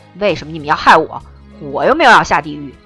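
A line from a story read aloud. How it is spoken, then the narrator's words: Angry roar. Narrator (Chinese): 风流也忍不住为自己的倒霉发出怒吼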